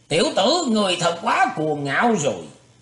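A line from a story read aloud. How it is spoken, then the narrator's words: Angry shout. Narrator (Vietnamese): Công Tôn Sở càng tức giận lên quát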